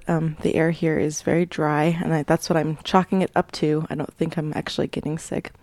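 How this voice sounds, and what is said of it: Slightly sore, rough-sounding throat. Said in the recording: “I have a bit of a sore throat.”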